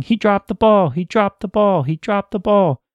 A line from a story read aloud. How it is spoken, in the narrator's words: announcer kept screaming